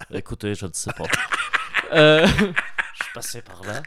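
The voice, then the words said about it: Put-on Belgian-Swiss French accent. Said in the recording (French): “un accent euh, presque belge ... J'ai mis un peu de suisse”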